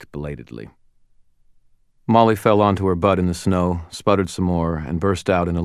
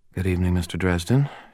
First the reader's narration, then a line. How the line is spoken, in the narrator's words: she murmured